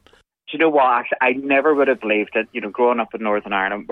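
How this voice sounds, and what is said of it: Northern Irish accent. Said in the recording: “The Northern Ireland accent is apparently very sexy to listen to.”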